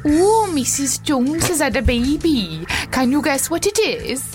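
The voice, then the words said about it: Put-on Welsh accent. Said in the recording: “Can you do a Welsh accent? ... Yes.”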